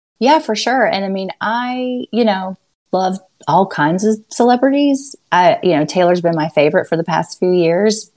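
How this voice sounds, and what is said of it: Soft Southern American accent. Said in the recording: “your dulcet Southern accent”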